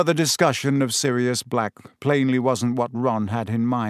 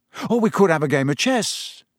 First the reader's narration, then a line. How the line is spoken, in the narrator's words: he said hastily